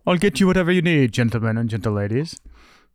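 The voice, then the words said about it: Attempted British accent, not fully convincing. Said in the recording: “I want to hear you with a British accent ... That's actually not bad ... it still doesn't sound English ... Sell the British part a little bit higher”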